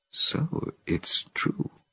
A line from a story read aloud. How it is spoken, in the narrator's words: muttered Cornelius, looking at Zira in utter bewilderment